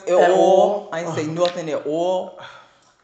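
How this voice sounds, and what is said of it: Put-on New York accent. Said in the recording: “in my New York voice”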